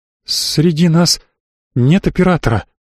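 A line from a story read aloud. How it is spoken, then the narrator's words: Trembling voice. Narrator (Russian): дрогнувшим голосом сказала Анита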